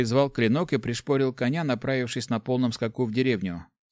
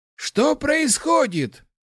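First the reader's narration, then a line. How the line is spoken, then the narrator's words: Exclaiming. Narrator (Russian): воскликнул Ларс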